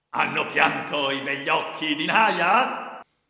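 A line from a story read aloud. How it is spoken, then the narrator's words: Shouting. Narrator (Italian): gridò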